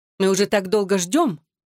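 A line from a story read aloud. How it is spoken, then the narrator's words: Sharp. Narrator (Russian): резко произнесла она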